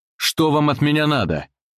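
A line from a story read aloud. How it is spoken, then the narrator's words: Yelling. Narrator (Russian): заорал Тимур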